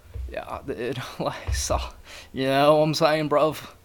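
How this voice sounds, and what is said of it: Put-on Australian-British accent. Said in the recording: “You ain't gay with that accent... I've been stuck on this, like, Australian-British accent”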